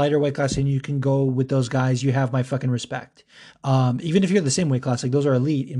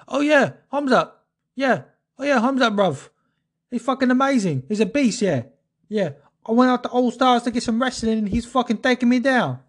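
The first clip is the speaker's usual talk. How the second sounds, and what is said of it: Poor thick East London Darren Stewart impression. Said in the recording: “that was a terrible dialect, but Darren Stewart has that really thick, like, East London.”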